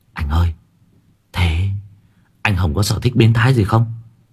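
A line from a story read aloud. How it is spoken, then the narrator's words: Whispering. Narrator (Vietnamese): Đức nhỏ giọng thì thầm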